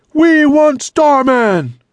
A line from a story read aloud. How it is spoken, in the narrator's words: the crowd roared